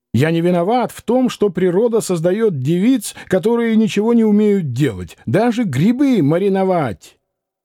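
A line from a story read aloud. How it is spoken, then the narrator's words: Angry shouting. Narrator (Russian): писатель Катин кричал на нее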